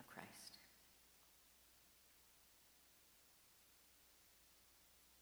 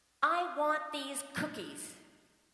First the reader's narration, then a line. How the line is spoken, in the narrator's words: screams the child